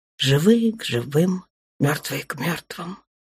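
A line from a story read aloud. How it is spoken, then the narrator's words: Soft whisper. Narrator (Russian): прошептала тихонько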